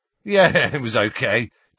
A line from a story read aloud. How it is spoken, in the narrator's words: chuckled Dean